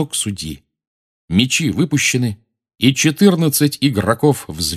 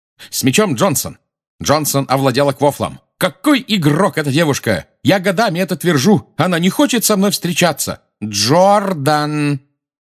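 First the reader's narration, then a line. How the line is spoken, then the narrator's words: Shouting. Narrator (Russian): крикнула профессор МакГонагал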